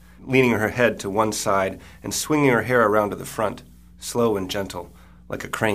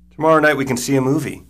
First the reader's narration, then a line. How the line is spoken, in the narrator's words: Caitlin says, too loudly